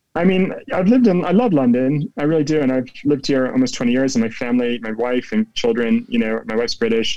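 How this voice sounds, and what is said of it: American accent with English twang. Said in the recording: “you still sound American with an English twang to you in your voice”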